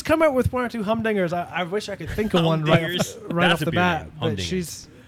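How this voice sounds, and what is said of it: Scottish accent. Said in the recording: “You are teaching your daughter this beautiful Scottish accent”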